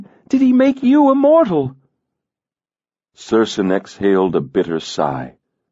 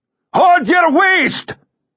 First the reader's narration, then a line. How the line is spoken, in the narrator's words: He roared